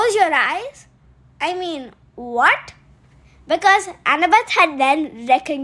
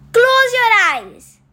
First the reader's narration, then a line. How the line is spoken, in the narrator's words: Annabeth yelled